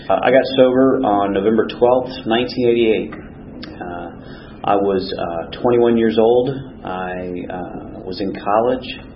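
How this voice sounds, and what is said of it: Slightly sick-sounding voice. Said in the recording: “I'm a little under the weather, so my voice sounds slightly different usually”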